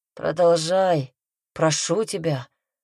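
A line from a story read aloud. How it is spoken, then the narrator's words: Breathless plea. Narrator (Russian): выдохнул Томас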